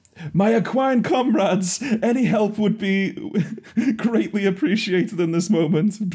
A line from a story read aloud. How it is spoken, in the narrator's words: Swiftwind just shouts like in the air